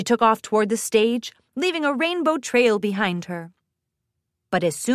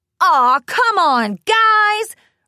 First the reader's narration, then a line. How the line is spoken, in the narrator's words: Rainbow shouted up at the sky